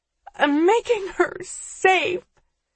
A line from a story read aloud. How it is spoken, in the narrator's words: she cries, voice still muffled by the plain white mask